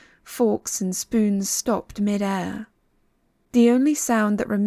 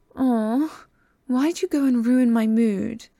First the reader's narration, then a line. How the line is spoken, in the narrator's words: His voice was light, playful